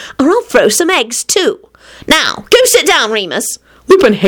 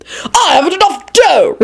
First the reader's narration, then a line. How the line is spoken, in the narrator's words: Richard bellowed